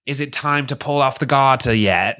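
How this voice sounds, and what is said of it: Imitation of Jessa's accent. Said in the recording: “I love my Jessa accent”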